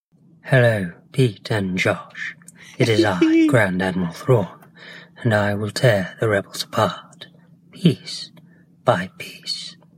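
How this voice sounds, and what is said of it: Imitation of Grand Admiral Thrawn's voice. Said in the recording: “that Grand Admiral Thrawn imitation”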